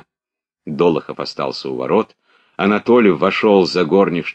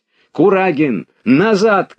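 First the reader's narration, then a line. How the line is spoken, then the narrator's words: Shouting. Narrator (Russian): кричал Долохов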